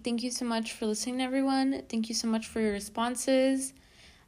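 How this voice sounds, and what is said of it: Flat, monotone voice. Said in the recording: “I sound a little monotone”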